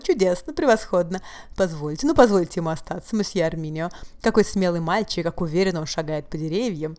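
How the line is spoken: Foolish son repeating endlessly. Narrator (Russian): его болван сынок без конца повторял

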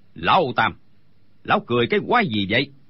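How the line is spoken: Shouted. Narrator (Vietnamese): Đinh Bất Tứ quát lên

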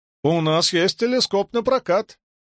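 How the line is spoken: Shouted after someone. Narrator (Russian): крикнул человечек ему в спину

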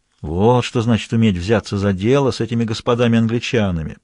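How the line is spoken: Muttered to himself. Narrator (Russian): пробормотал про себя Ланжале

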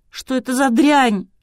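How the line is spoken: Girl wailing. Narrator (Russian): взвыла девушка

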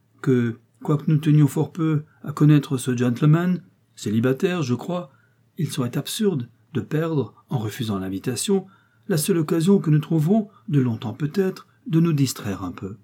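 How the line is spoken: Sighing. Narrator (French): soupira la jolie

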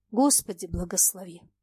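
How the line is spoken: Silent inner speech. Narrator (Russian): мысленно произнес он

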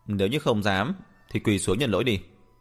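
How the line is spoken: Laughing. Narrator (Vietnamese): Thừa Vĩnh Ninh bật cười nói

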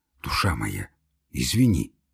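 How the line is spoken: Embarrassed whisper. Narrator (Russian): зашептал Самойленко, конфузясь

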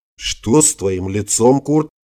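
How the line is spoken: Undertone question. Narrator (Russian): вполголоса поинтересовался Владимир Семенович

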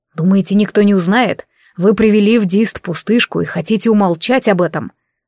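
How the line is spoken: Angry whisper. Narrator (Russian): Зло прошептал я

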